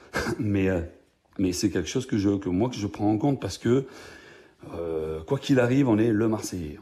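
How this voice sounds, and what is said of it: Marseille French accent. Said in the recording (French): “quand on est Marseillais, là, je ne fais pas d'effort, je vous laisse mon accent”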